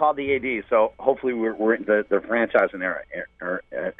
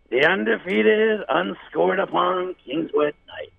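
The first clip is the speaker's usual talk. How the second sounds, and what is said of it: Imitates another person's voice. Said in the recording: “I have to do this impersonation.”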